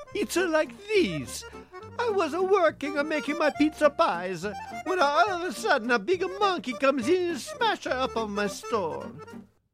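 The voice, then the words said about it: Comically bad Italian accent. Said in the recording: “He attempts to disguise his voice with a comically bad Italian accent.”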